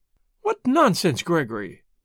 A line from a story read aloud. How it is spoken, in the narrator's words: said Mary Marvell sharply